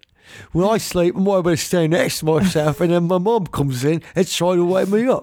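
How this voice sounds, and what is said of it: Put-on English accent, Dick Van Dyke-like. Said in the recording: “I should have done it in an English accent ... Whenever I do an English accent, I just sound like Dick Van Dyke.”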